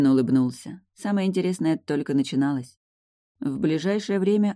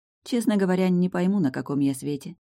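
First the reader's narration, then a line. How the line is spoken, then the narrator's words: Sighing. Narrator (Russian): Она вздохнула и добавила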